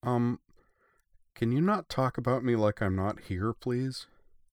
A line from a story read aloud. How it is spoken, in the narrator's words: said I-401 in a timid voice